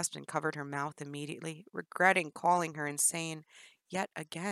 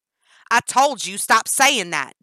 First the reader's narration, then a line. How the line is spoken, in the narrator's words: Danny screamed